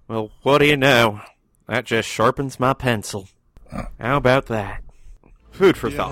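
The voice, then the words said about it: Put-on passionate Southern accent. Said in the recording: “if you say it with enough passion in a southern accent”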